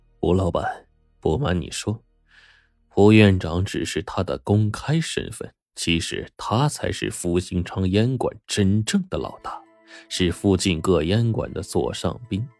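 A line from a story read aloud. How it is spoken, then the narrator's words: Low voice. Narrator (Chinese): 裘老板在一旁低声说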